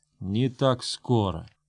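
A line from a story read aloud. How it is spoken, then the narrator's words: Whispered through clenched teeth. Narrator (Russian): Грон сквозь зубы прошептал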